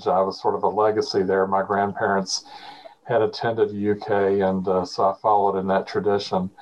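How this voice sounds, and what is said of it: Kentucky Southern American accent. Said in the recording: “people always ask about my accent ... I was born and grew up in central Kentucky, the area around Lexington, Kentucky”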